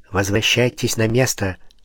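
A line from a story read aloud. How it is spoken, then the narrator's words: Quiet answer. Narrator (Russian): так же тихо ответил Пушкин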